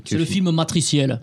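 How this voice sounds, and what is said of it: Put-on Southern French accent. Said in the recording (French): “je prends cet accent ... j'imite l'accent du Sud.”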